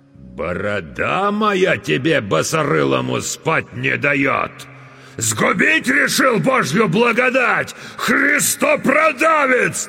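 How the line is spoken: Enraged chieftain's sudden yell. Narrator (Russian): Налившись кровью, вдруг заорал атаман

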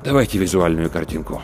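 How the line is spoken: Sigh, then plain speech. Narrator (Russian): Рудольф Терентьевич вздохнул и сказал

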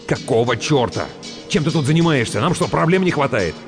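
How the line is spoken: Snapping. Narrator (Russian): Выдр огрызнулся

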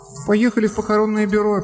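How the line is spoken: Sad reply. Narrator (Russian): печально ответила Лори

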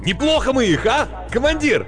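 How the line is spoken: Excited near-shout. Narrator (Russian): Возбуждение от неслыханной удачи заставило его едва ли не прокричать эти слова

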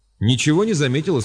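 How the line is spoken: Plain. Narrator (Russian): спросил Хуанг

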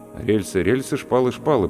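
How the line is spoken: Muttering. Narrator (Russian): пробормотал я

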